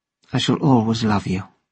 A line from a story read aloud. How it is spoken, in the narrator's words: said softly